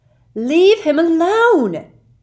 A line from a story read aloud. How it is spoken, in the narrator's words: Lily shouted